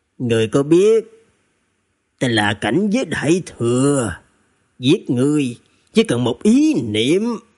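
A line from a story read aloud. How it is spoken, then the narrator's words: Hoarse voice. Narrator (Vietnamese): Thủy Hiền Chỉ giọng khàn khàn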